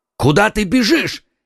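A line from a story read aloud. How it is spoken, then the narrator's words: Two men shouting. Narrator (Russian): крикнули ему вслед оба мушкетера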